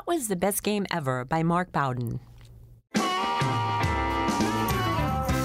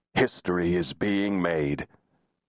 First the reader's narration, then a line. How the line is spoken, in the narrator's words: his eyes glowing with excitement as he had rasped to her